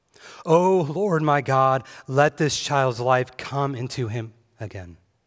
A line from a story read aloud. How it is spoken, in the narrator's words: he cried to the Lord